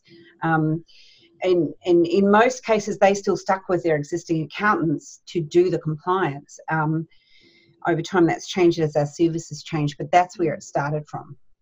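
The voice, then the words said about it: Australian accent. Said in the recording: “the Australian twang”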